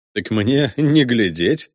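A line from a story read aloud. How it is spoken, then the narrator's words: Laughing. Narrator (Russian): засмеялся Капрос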